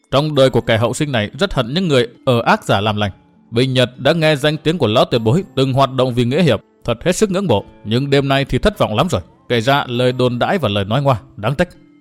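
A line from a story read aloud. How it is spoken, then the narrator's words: Cold laugh, then speaking. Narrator (Vietnamese): Qua một tiếng cười nhạt, Nguyên Bình nói tiếp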